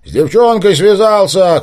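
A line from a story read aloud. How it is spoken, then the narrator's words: Shouted from afar. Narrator (Russian): крикнул ему Виктор со стены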